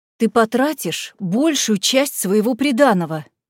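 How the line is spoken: Exclaiming. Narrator (Russian): воскликнула тетя Клэр

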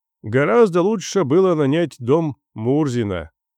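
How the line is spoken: Grumbling. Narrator (Russian): ворчал опять Татищев

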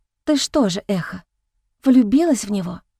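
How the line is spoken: Barely audible question. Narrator (Russian): Едва слышно спросила Лияра

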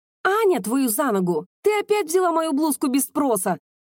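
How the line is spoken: Shouting friend. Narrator (Russian): закричала подруга

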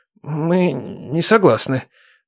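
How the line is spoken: Stammering mumble. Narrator (Russian): заикаясь, промямлил тот

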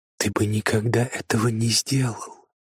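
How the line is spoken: Whisper. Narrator (Russian): прошептала она

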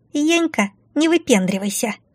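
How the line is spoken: Squeak from doorway. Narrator (Russian): пропищал из двери летяга

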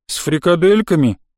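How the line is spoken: Grumbled, poorly hidden hope. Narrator (Russian): пробурчал я с плохо скрываемой надеждой

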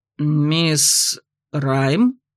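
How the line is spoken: Uncertain. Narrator (Russian): неуверенно уточнил капитан

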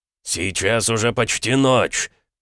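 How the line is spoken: Barked. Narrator (Russian): рявкнул Макеев

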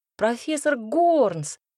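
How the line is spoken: Joyful greeting. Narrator (Russian): радостно поприветствовала я

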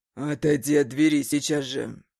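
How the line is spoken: Rough growl. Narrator (Russian): Грубо прорычал

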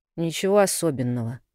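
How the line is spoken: Muttering. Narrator (Russian): пробормотал Лёнька

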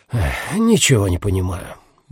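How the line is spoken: Sighing. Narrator (Russian): вздохнул Теко Маше

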